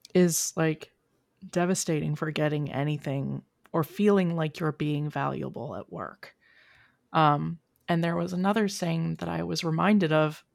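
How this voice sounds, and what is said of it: Hoarse, croaky voice. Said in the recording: “I have a frog in my throat ... my entire family has been sick for the last week”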